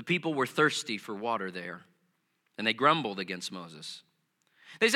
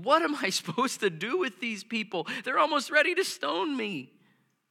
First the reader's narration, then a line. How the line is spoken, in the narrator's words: Moses cried out to the Lord